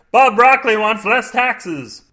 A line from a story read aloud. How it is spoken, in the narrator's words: They shouted